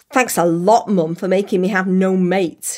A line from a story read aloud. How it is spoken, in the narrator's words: she spat